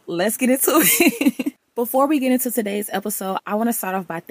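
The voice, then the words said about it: Raspy, partly lost voice. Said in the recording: “my voice is still not fully back ... raspy and all ... I lost my voice again”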